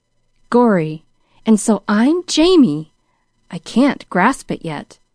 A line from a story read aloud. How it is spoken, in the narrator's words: exclaimed the young man